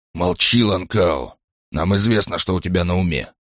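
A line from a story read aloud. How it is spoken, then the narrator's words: Stern urging. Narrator (Russian): призвал Крёнер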